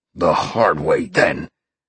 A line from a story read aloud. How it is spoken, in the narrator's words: the man growled